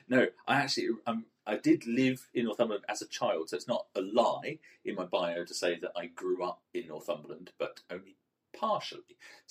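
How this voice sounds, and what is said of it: Southern English accent. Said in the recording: “you might detect from my accent that I'm actually not originally from Northumberland... So I've perfected this southern accent over the years”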